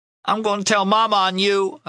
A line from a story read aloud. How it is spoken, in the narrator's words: I yelled